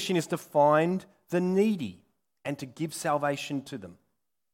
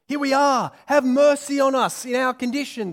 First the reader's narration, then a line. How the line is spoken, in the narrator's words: they shout out